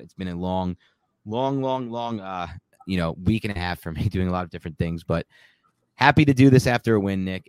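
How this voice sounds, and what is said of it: Hoarse, strained voice. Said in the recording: “My voice is completely shot.”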